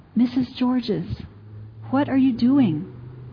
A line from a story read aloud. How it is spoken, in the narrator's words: Fintner leaned over and said softly